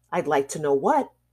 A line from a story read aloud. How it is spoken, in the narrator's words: he growled